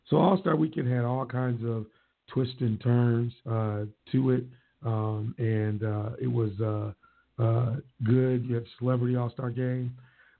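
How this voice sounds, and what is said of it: Slightly hoarse, worn-out voice. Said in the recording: “my voice is a little gone”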